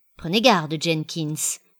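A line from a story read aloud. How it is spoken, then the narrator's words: Said coldly. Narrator (French): dit froidement mon pavon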